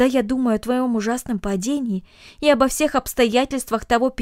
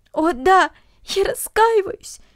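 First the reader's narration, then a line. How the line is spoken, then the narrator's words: Sobbing. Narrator (Russian): всхлипывала Люся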